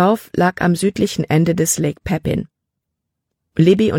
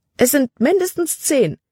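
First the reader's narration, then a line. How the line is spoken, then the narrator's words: Exclaiming. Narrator (German): rief aus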